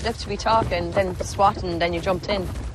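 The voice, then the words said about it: Put-on Irish accent, not bad. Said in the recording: “I don't think Emily Blunt's accent is that bad at all. It's probably better than Jamie Dornan's, and he's from the island of Ireland”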